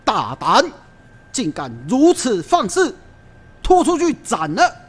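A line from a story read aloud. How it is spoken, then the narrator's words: Furious bellow. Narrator (Chinese): 宋江因此大怒，大声喝道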